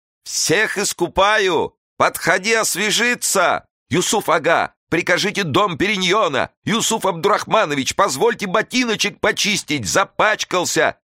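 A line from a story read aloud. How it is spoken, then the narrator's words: Servants shouting over each other. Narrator (Russian): наперебой кричали служители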